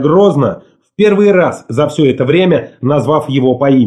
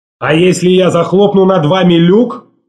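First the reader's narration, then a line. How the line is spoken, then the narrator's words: Shouted. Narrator (Russian): крикнул он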